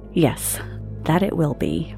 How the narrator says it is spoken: muttered Catherine

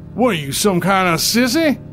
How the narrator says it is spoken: he bellowed

